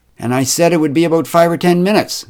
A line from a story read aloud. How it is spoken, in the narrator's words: snapped Karen